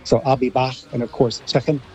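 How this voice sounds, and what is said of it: Put-on Liverpool Scouse accent. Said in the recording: “American Scouse accent there. That was quite good.”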